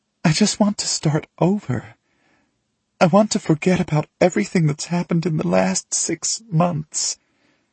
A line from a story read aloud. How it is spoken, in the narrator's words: she sobs